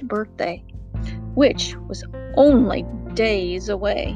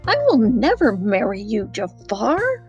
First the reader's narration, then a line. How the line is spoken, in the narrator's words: cried Princess Jasmine